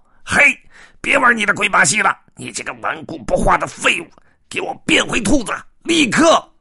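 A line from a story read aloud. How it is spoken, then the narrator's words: Shrill shout. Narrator (Chinese): 尖声喊道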